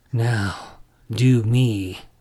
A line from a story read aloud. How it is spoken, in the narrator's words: the boy snarled